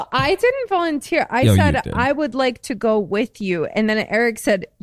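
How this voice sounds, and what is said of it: Usual voice. Nothing is said of it.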